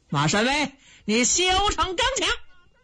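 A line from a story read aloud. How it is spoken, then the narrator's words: Loud shouting. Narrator (Chinese): 左先锋王明高声喊嚷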